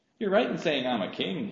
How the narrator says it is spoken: said

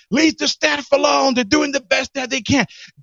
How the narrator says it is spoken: he's yelling back

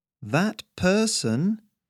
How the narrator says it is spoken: Harry replied, his voice just as slow and plodding

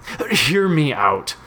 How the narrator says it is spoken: said Mitch frantically

